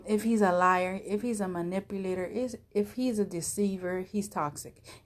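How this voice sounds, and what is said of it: Speaker's own accent. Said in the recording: “Excuse my accent. I get like tongue twisted.”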